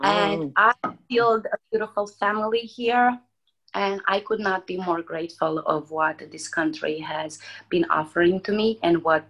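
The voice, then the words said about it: Romanian accent. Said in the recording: “as everyone can hear my accent, I am not born in America. I was born in Romania”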